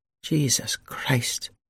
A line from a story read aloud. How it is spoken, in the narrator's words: murmured Gwen